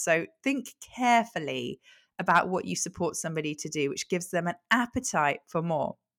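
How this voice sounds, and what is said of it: Brighton accent. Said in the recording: “I don't know why I'm talking in this like kind of a Brighton accent today”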